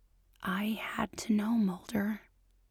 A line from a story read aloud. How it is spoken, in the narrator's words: whispers